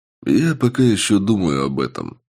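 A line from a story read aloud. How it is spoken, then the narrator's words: Calm reply. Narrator (Russian): спокойно ответил я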